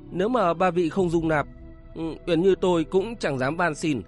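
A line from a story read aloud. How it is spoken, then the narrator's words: Trembling voice. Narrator (Vietnamese): Kính Hồ Tiên Cơ run rẩy nói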